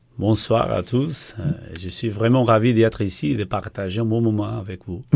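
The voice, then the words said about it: Portuguese accent in French. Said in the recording (French): “cet accent euh, d' ... est celui euh, du Portugal”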